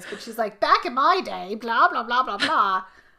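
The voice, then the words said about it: Put-on Cockney old lady accent. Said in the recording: “I'm doing the accent totally wrong. I was doing like a Cockney accent”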